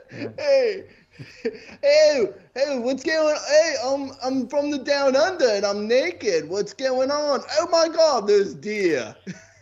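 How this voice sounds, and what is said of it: Bad Australian accent drifting British. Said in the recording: “Is my accent good? ... I think we crossed over from Australian to really bad British somewhere.”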